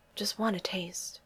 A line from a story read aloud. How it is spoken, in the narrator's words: mumbles